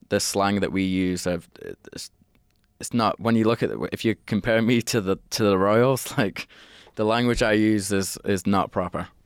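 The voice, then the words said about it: Northern English accent. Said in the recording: “my accent ... I wouldn't consider myself as proper English. Like I'm very northern.”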